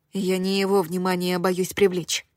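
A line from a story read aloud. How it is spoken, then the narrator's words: Whisper. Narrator (Russian): прошептала я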